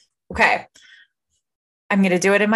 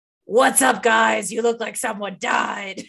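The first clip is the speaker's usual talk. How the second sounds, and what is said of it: Zombie character voice. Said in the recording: “in my zombie voice”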